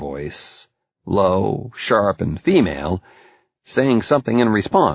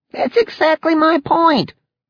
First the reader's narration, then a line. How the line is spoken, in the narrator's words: Leon exclaimed